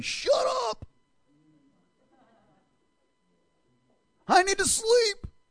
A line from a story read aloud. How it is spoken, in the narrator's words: They're probably screaming at them